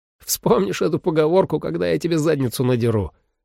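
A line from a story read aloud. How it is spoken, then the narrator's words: Laughing through pain. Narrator (Russian): рассмеялся Ли и поморщился от боли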